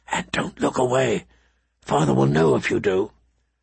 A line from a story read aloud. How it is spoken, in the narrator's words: he whispered